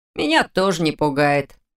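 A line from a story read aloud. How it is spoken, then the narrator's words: Cheerful remark. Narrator (Russian): бодро заметил Фрай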